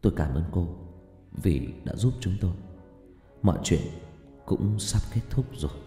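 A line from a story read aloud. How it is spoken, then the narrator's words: Soft, quiet. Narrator (Vietnamese): Hùng khẽ nói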